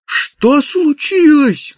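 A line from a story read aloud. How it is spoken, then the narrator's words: Shout. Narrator (Russian): крикнул он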